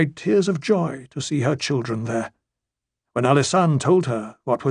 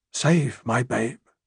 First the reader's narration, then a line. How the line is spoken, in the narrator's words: she whispered